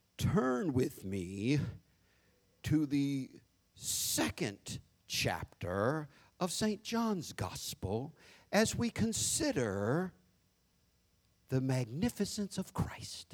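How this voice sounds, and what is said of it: Put-on grand preacher voice. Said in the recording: “You got that fake voice. Nobody talk like that. You got half the preachers in the country trying to sound like Dr. King ... the other half trying to sound like Billy Graham”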